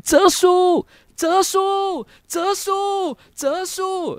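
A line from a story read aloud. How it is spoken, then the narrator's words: Wild repeated roaring. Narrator (Chinese): 一直狂吼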